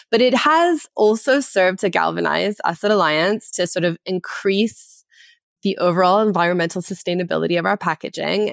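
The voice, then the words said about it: Canadian English accent. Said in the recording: “You will be able to tell from my accent that I am not from the UK. I am from the former British colony of Canada.”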